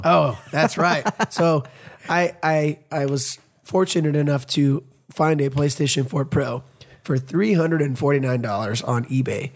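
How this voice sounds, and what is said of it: Raspy, deep, sick-sounding voice. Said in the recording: “I'm sick, so I apologize for my voice being all raspy ... It sounds kind of cool ... This deep. You sound like a bro.”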